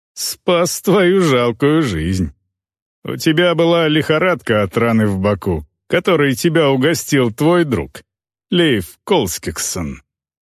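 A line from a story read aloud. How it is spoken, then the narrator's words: Mocking. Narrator (Russian): Тот насмешливо сказал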